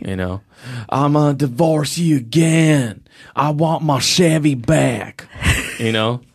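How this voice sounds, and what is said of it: Put-on Kentucky accent. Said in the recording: “What accent is that? ... That was a Kentucky accent.”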